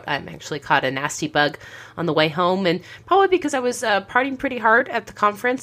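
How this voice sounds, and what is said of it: Slightly hoarse, croaky voice. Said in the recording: “why I have a little bit of a frog in my throat.”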